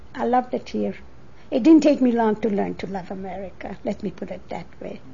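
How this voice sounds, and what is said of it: Hungarian accent. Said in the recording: “You probably still detect the Hungarian accent when I talk”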